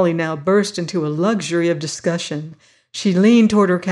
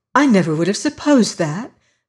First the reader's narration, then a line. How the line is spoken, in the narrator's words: she would exclaim